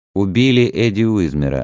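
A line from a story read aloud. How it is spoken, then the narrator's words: Plain. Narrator (Russian): ответил Квист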